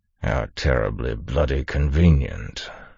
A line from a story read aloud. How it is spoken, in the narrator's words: the Duke growled